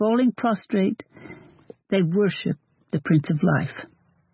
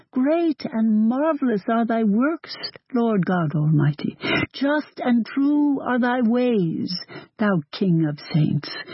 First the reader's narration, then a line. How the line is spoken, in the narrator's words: all with one voice exclaim